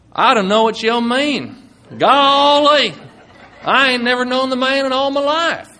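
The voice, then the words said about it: Put-on Southern American accent. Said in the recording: “Peter and Jesus had come from America and the Bible Belt in the South, it would sound something like this”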